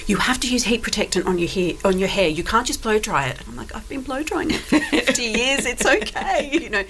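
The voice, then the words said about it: Australian accent. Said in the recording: “that accent, you're not from the Isle of Wight ... I'm from Sydney. I grew up in Sydney.”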